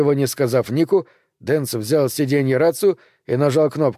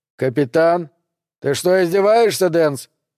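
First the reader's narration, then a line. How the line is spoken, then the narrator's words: Barked shout. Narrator (Russian): рявкнул капитан Делия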